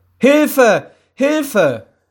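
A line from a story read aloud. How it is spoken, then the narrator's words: Very loud echoing scream. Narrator (German): schrie sie so laut, dass es durch das ganze Haus hallte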